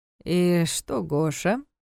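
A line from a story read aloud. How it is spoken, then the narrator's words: Strange-toned question. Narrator (Russian): каким-то странным тоном спросил Карпатский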